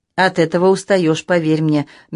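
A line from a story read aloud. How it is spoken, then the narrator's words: Soft. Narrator (Russian): мягко сказала я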